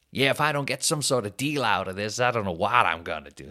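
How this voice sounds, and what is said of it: Put-on North American accent. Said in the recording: “that's exactly how they talk as well. That any Canada, North American accent, American Canada”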